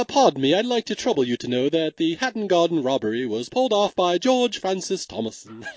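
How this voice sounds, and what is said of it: Kevin Kline's put-on British voice. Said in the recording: “Kevin Kline pulls out his British voice when he's calling the cops ... I can't possibly do it justice ... Kevin Kline is so good at accents, way better than I could just do”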